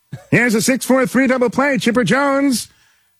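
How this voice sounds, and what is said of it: Impression of announcer Skip Carey. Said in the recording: “the Skip Carey impersonation ... The longtime announcer of the Braves ... I used to do Braves highlights on SportsCenter in his voice”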